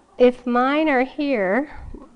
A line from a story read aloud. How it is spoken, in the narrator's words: she moaned with despair